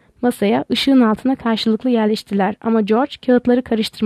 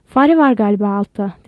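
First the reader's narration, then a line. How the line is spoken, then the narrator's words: Plain. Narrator (Turkish): dedi George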